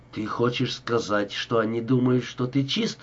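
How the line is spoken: Calmer question. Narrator (Russian): уже более спокойно спросил Рика

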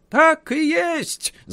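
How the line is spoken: Guards shouting. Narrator (Russian): закричали стражники

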